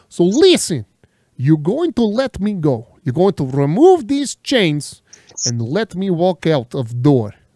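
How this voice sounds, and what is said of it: Thick foreign accent. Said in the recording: “I can't understand your accent ... it is not very thick”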